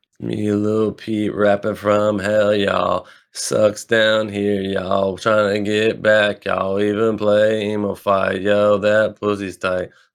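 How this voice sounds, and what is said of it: Imitates another person's voice, emo rapping. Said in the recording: “your Lil Peep fucking impression ... That's exactly what it sounds like.”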